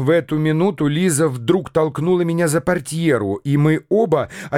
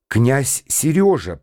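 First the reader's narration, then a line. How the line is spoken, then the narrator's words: Whisper. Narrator (Russian): прошептал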